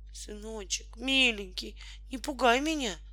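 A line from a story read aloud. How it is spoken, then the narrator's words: Tearful pleading. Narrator (Russian): взмолилась бедная Наталья Кузьминишна, и слезы покатились по ее доброму лицу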